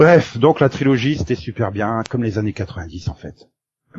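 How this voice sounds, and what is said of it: Usual voice. Nothing is said of it.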